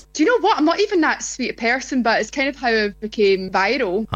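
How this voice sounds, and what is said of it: Speaks with a distinctive regional accent. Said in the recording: “gorgeous accent ... that's the accent”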